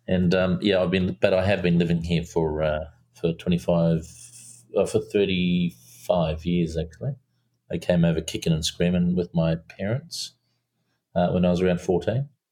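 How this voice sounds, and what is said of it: Slight New Zealand accent. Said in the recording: “if you can hear a little bit of Kiwi accent”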